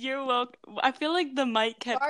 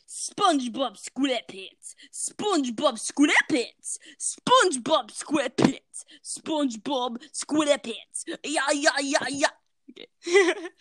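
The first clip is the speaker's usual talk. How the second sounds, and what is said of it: Strained, kazoo-like put-on accent singing. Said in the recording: “I don't know what accent that was, but it kind of sounded like someone was strangling a kazoo”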